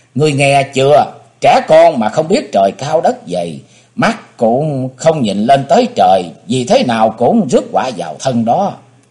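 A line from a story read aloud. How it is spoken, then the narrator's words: Smiling. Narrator (Vietnamese): Thẩm Nam Thi ... mỉm cười nói với Đàm Tiểu Lân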